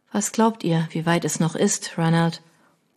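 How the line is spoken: Quiet question. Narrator (German): Leise fragte sie

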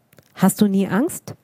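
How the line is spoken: Plain. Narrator (German): fragte ich

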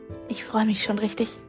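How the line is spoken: Whispering. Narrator (German): flüsterte Grio

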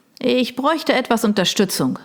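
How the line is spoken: Called out. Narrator (German): rief er

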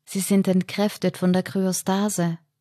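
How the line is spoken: Calm voice. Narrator (German): sagte mit ruhiger Stimme

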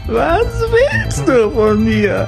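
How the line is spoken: Scream. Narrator (German): schrie sie

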